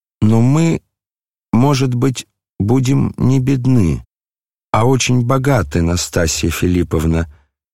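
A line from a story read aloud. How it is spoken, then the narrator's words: Timid voice. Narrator (Russian): продолжал князь тем же робким голосом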